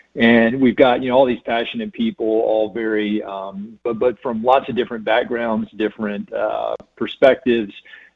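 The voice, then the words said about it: North Carolina accent. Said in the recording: “You can tell from this accent, I'm not from here originally. I'm from North Carolina”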